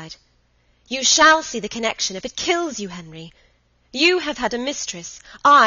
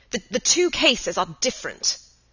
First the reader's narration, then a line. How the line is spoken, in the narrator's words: Henry stammered